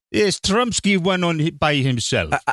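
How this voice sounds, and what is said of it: Put-on Russian accent. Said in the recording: “needs to do a Russian accent once a show ... got his Russian accent out. He's good at voices.”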